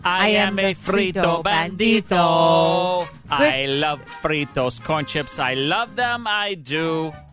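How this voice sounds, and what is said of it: Sung put-on accent. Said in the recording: “That's a great accent.”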